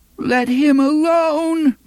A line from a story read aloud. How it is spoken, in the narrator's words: moaned the voice of little Blaine